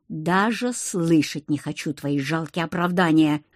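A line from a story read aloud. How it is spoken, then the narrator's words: Angry growl. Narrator (Russian): рыкнул он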